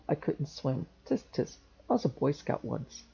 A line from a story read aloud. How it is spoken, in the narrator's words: Kane mumbled